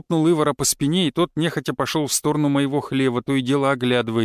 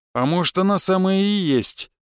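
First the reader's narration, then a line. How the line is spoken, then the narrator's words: Supportive agreement. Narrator (Russian): поддержал своего работника Бернар, а затем тяжело вздохнул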